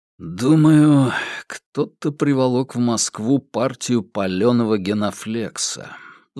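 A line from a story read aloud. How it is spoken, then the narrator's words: Sighing. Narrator (Russian): вздохнул Иван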